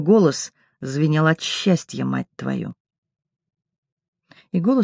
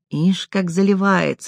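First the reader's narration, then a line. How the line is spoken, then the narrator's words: Sweet-voiced giggle. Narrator (Russian): сладкоголосый хихикнул Ник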